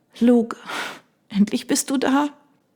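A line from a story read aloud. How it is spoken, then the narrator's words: Sobbing, trembling. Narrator (German): Ihr ganzer Körper bebte unter ihren Schluchzern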